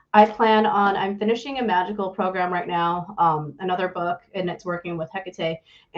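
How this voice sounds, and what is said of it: American accent. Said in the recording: “excuse my American accent for butchering every word that's not American or English American”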